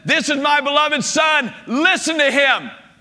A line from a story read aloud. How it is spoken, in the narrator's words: God the Father shouts down from heaven